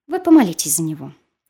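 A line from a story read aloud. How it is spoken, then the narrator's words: Softer. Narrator (Russian): прибавляли более мягко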